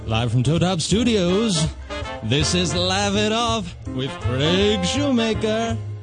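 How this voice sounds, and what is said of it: Deeper radio announcer voice. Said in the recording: “announcer voice? ... it was a little different. ... different than my speaking voice. ... You actually lowered your jaw.”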